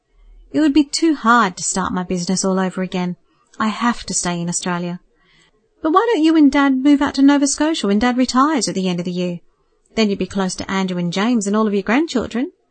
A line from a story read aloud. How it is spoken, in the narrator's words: replied kindly